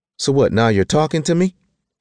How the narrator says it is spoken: snapped

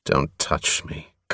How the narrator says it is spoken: Covenant murmured

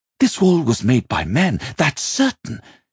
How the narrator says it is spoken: he called back excitedly

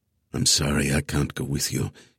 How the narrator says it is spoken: he whispered into her hair, his words just loud enough for Evan to register

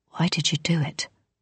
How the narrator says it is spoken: Flick asked

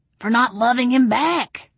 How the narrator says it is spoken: Mama Ginger cried

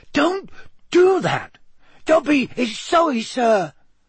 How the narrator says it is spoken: squeaked Dobby anxiously

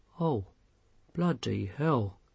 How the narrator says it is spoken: he said softly

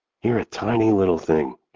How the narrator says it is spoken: Kat whispers to Ella

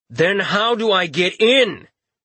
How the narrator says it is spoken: His voice was nearly a shout

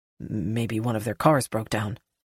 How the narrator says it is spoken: Jonah mutters

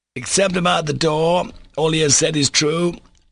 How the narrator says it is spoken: cried Mitya in a loud voice

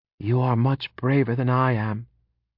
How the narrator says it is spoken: she said

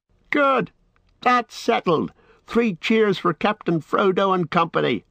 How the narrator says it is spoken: they shouted

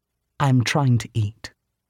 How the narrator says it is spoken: said very calmly

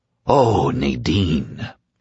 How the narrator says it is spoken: he whispered

